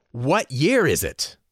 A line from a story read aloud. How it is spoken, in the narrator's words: yelled again